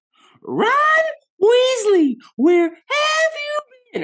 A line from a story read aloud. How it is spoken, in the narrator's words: all of a sudden I hear yelling